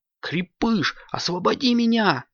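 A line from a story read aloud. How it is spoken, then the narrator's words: Shouting. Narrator (Russian): кричал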